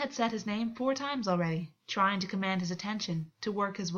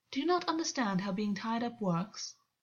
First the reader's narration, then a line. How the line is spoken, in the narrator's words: August said smoothly